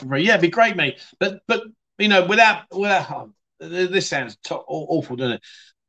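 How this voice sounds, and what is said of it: London accent. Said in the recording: “I'm listening to you because of your accent. Whereabouts in London are you from? Kingston.”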